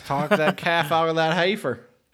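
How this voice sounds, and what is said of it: Southern accent on one word. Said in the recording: “Was that a good southern accent? ... The only word you put a southern accent on was heifer, but it was so good.”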